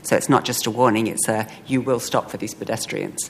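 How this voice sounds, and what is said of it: Thick foreign accent. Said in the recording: “I've just been in England, so my accent is even thicker than ever.”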